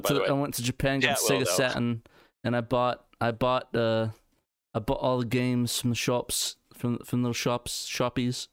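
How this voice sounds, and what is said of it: Put-on British accent. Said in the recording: “doing a terrible British accent”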